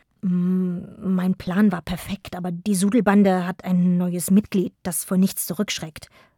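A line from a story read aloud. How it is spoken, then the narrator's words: General murmuring. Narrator (German): murmelte der General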